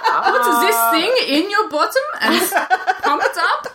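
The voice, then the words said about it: Put-on German accent. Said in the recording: “That's the Germans for you. ... Only ... can do that accent.”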